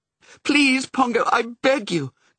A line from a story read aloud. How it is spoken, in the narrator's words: cried Mrs